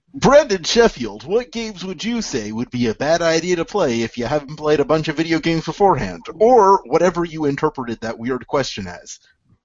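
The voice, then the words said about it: Nasal radio DJ voice. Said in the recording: “You need to blow your nose, bro. ... my radio DJ voice ... the nasal right. voice.”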